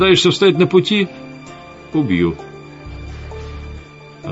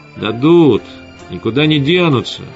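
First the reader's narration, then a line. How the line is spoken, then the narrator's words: Calm reply. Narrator (Russian): спокойно ответил Костя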